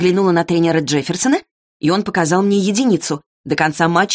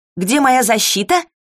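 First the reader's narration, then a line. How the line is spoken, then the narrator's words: Shout. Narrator (Russian): закричала я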